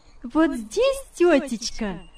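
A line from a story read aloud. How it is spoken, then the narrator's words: Cheerful exclamation. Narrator (Russian): вскричала весело Яна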